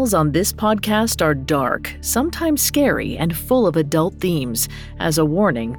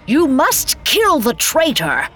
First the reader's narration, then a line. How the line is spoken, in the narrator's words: one hollered